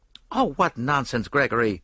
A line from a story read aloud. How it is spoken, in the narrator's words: said Mary Marvel sharply, but she flushed angrily